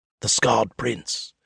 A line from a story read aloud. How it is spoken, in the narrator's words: someone murmurs